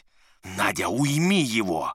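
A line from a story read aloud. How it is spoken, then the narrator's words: Hissed. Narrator (Russian): прошипел Ипполит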